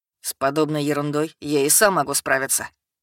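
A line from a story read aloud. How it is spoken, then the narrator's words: Eager scoffing snort. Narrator (Russian): фыркнул Эдгард, загоревшись идеей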